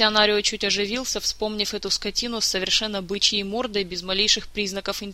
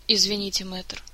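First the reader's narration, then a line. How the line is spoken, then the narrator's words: Meek sigh from a prince. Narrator (Russian): покорно вздохнул его высочество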